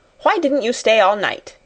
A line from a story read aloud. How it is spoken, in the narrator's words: she snapped